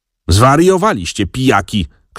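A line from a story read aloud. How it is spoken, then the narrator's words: Aunt's shout. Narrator (Polish): krzyknęła ciotka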